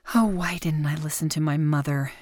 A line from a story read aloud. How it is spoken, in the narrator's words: Cherry groaned to herself